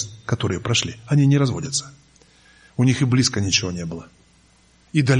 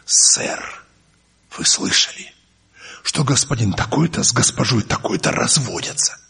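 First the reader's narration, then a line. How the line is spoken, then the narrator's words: Conspiratorial voice. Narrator (Russian): заговорческим голосом говорю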